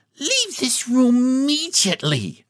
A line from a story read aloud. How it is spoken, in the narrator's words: she cried, her voice trembling with indignation